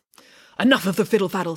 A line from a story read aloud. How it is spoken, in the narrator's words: snapped